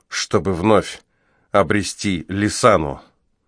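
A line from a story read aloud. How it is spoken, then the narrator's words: Trembling voice. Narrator (Russian): закончил он дрогнувшим голосом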